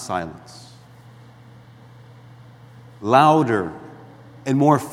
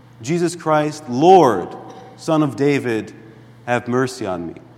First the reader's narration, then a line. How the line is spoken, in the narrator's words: all of them, in strict defiance of those around them, raised their voice and said